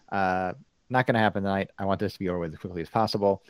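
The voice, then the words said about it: American accent. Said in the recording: “opinion with an American accent”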